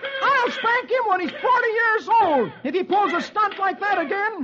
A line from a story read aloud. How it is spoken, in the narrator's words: Dagwood shouts